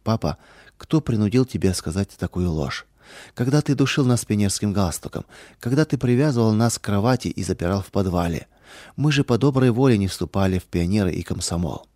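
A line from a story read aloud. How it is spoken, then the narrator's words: Sad question. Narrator (Russian): дочери печально спросили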